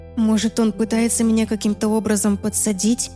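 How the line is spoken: Timid. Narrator (Russian): робко предположила я

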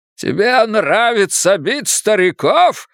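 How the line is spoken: Screaming. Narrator (Russian): завопил Ирвин Голдман

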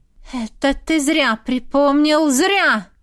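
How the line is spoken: Wife speaking through teeth. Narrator (Russian): Процедила жена

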